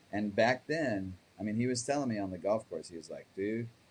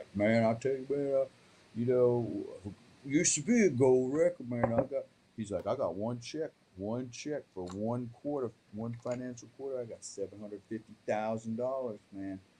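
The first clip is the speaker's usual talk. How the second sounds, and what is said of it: Thick Memphis Tennessee accent impression. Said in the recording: “He's from Memphis, Tennessee. He's got this real thick accent.”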